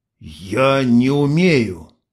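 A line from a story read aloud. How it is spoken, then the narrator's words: Wounded cobra hiss. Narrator (Russian): Ксения издала шипение раненой кобры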